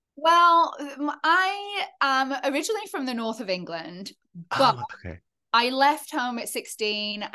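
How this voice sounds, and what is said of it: English accent, hard to place. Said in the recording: “my accent doesn't really sound fully like the north of England. I sound English, but it's very hard to place my accent ... people are like, oh my God, you sound so American ... my accent is kind of all over the shop.”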